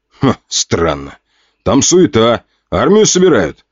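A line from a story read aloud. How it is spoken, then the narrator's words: Soldier shouting. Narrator (Russian): крикнул один из бойцов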